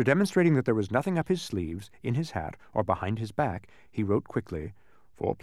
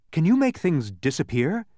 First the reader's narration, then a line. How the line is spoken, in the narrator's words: asked Milo excitedly